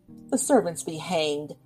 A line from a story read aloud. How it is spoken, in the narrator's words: said Winterbourne angrily